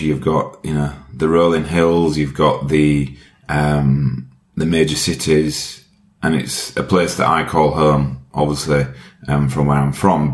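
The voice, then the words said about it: Yorkshire English accent. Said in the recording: “where is your accent from? ... My accent is from Yorkshire um, in the UK.”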